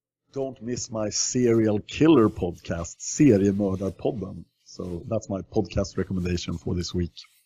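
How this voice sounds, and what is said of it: Thick Swedish accent in English. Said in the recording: “my English irritating because it has such a thick Swedish accent”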